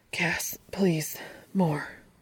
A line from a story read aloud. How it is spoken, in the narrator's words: he murmurs, breathless and needy